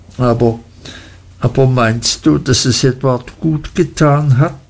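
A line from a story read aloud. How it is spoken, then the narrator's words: Mother stammering humbly. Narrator (German): stammelte meine Mutter demütig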